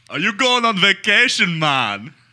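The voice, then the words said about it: Put-on thick Jamaican accent. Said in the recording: “my Jamaican Uber driver ... very thick accent ... a Jamaican accent ... the Jamaican patois”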